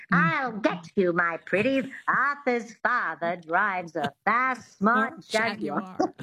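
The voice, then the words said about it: Put-on mid-Atlantic accent with twang. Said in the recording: “that twang is really important ... the mid-Atlantic accent”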